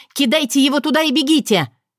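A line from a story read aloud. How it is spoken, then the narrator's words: Shout. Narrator (Russian): Татьяна крикнула детективам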